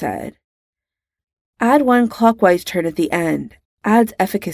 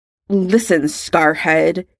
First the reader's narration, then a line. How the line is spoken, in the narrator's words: Draco spat